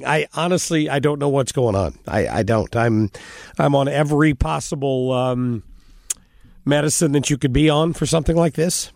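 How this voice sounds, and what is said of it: Unwell, questionable-sounding voice. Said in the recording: “as you can hear from my voice, here we go again ... my voice has been questionable”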